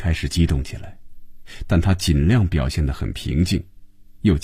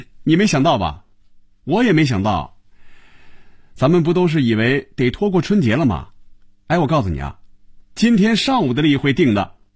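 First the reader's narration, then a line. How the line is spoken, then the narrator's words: Laughing. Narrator (Chinese): 韩香笑了起来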